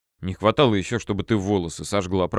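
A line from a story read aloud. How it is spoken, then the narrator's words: Grumbling. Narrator (Russian): проворчал я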